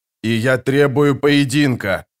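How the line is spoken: Growled. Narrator (Russian): прорычал Джамис

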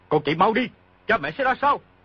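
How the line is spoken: Shouting. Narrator (Vietnamese): quát

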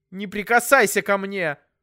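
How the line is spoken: Falsetto shout. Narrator (Russian): фальцетом прокричала мама

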